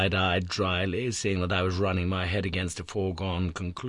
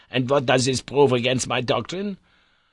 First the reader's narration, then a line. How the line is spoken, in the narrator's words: said he sharply